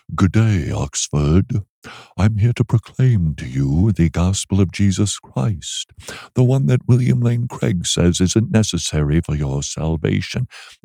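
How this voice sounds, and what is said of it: Snooty put-on British accent. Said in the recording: “I spoke as if I were British with a really snooty attitude ... you're aping us? ... you're mimicking us? You're impersonating? ... What are you doing with the accent?”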